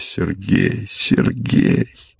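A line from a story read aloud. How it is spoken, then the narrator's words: Whisper. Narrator (Russian): Она шепотом произнесла его имя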